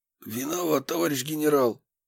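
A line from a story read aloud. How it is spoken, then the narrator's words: Hoarse. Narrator (Russian): Прохрипел я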